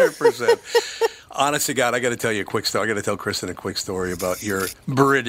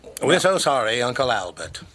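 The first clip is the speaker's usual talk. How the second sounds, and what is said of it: Put-on British accent. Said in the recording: “British accent. ... That's how she speaks, 100%.”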